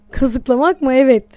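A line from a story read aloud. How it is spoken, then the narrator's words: Laughing. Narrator (Turkish): diye güldü Anton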